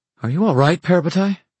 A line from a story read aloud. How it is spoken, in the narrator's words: Alec said, looking anxiously